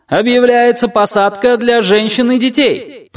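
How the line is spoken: Menacing shout to crowd. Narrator (Russian): прокричал он в толпу, грозно

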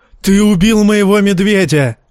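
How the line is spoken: Wailing yell. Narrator (Russian): вопил Варга Хоут

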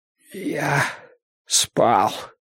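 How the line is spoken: Painfully hoarse reply. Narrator (Russian): ответил он сипло, хотя разговор громче шепота причинял горлу тяжелые страдания

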